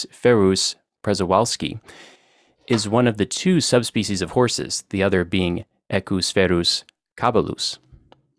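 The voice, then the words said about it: American-accented Latin pronunciation. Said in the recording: “I pronounced the Latin with a good solid American accent.”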